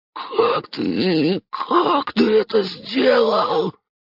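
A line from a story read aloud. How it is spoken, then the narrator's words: Hoarse rasp. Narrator (Russian): прохрипел рыжий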